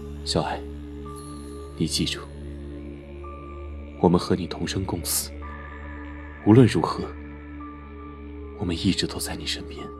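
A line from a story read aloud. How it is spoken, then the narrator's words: Soft, tender whisper. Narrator (Chinese): 白医生用前所未有的温柔语气轻声道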